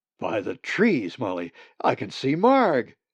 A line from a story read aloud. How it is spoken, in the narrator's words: Zack called excitedly